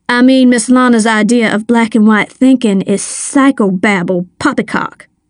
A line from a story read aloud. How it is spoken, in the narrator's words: she snapped